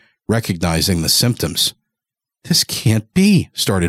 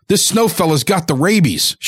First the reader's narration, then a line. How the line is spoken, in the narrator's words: shouted Father